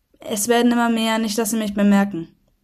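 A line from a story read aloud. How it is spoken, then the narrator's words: Flat, toneless voice. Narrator (German): meinte Nicola tonlos wie immer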